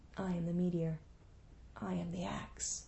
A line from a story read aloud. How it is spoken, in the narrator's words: Enkidu whispered